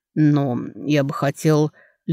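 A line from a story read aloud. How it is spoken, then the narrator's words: Lazy. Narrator (Russian): лениво начал Карей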